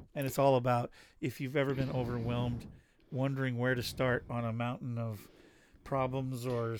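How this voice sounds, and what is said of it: Slightly hoarse voice. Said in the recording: “my voice is a little better? ... Still gets kind of hoarse, though. ... It's not 100% your voice, but it's getting closer.”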